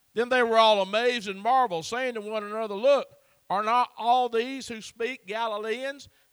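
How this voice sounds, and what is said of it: Southern US accent. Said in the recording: “they had an accent like old Brother Andy's got. I'm from the South.”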